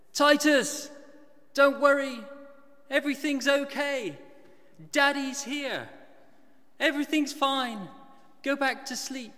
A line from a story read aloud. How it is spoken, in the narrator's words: I shouted across the house, and I said